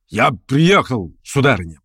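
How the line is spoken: Booming, trumpet-like. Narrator (Russian): прогремел было он, как в трубу

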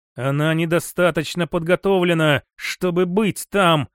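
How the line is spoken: Through gritted teeth. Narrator (Russian): процедил Роман

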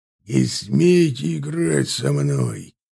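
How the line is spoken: Growling. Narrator (Russian): прорычал Бертран

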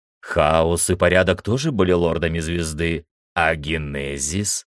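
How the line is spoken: Plain question. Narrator (Russian): спросил я

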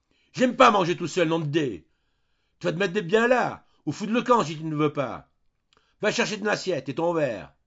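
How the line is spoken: Yelling. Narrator (French): il hurlait

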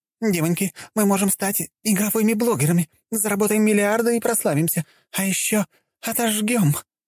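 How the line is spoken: Excited exclamation. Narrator (Russian): воскликнула блондинка

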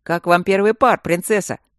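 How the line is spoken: Booming voice from nearby. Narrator (Russian): прогудел комендантский голос из соседней бочки

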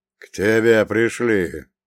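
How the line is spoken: Low booming. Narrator (Russian): прогудел он

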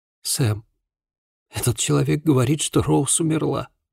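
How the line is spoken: Young man whispering. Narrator (Russian): прошептал молодой человек

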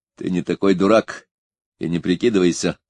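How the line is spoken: Angry reply. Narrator (Russian): зло ответил он

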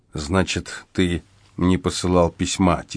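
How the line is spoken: Quiet summing up. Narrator (Russian): тихо подытожил я

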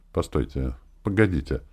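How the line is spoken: Hesitant, sudden. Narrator (Russian): Маша закусила губу, коротко вздохнула, и когда он уже повернулся, чтобы уходить, вдруг сказала

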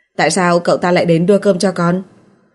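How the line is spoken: Cold interrogation. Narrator (Vietnamese): lạnh lùng chất vấn

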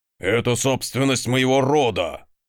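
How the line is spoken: Growled. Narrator (Russian): рыкнул ярл

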